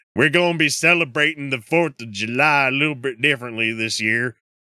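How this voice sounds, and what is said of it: Put-on Alabama accent. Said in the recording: “I don't know the Alabama accent. ... people live for my fucking voice impressions”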